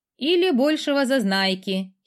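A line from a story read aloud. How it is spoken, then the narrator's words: Girl giggling. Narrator (Russian): хихикнула девушка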